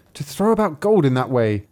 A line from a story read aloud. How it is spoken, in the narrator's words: cried the stepsister